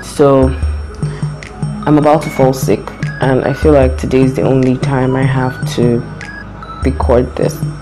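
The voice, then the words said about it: Hoarse, strained voice. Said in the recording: “All the shouting I've done this week, I've lost my voice, and I know I'm coming down with a cold”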